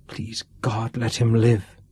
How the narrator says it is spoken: she whispered

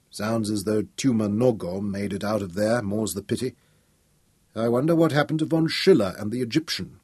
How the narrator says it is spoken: muttered grimly

